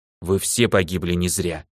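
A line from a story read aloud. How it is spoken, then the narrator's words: Quiet, wistful. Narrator (Russian): тихо сказала старшая, вспоминая родителей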